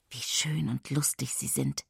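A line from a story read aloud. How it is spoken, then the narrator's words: Whispered softly. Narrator (German): flüstert, fügt leise hinzu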